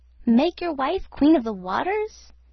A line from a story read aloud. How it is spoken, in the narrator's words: exclaimed the goldfish